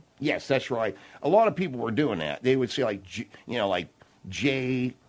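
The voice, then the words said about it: Accented speech, difficulty with L and R. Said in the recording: “your accent. ... I can't say L's, and sometimes it's very difficult for me to say R.”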